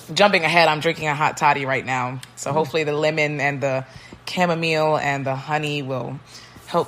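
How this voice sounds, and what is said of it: Squeaky, scratchy, failing voice. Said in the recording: “I'm losing my voice ... she's gonna sound like this all episode ... Sorry if it's squeaky ... soothe some of the scratching”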